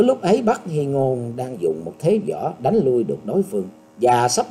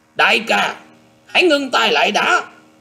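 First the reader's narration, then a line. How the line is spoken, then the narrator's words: Murderous loud shout. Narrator (Vietnamese): Bắc Hy Điền liền tràn đầy sát khí, quát to lên rằng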